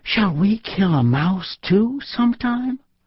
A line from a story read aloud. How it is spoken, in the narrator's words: Bambi asked his mother anxiously